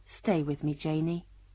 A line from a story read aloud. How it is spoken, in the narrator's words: very quietly, Alan Cole said